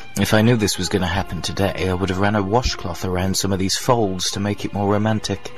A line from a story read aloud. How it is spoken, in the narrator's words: sighed